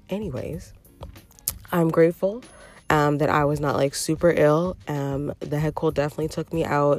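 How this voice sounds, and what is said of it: Lingering sick-sounding voice. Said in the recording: “I still have a bit of my sexy voice lingering. That's what I call my sick voice.”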